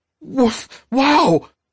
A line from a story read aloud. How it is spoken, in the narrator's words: exclaimed